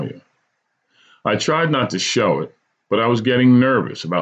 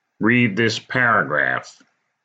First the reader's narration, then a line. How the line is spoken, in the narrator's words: said sternly